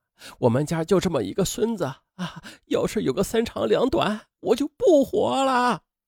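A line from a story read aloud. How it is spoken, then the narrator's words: Crying mother on phone. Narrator (Chinese): 王宝平的母亲在电话里哭着说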